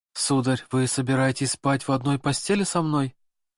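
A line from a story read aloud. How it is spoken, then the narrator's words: Trembling voice, asking. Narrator (Russian): Дрожащим голосом спросила Екатерина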